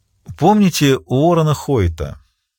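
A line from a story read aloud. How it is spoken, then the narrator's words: Plain. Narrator (Russian): спросила она наконец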